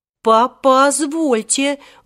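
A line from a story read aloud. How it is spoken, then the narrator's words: Menacing shout. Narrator (Russian): грозно закричал тогда Александр Никитич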